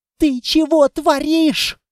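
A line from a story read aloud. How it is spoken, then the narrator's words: Yelling nearby. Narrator (Russian): заорала рядом Анна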